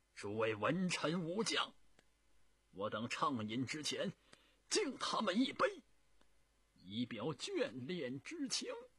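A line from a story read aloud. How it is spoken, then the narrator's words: Tearful, loud proposal. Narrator (Chinese): 朱元璋已经是泪流满面的对着他的文臣武将，他大声的提议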